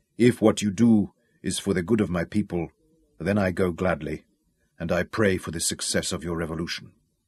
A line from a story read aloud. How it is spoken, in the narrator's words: the frail old man remarked quietly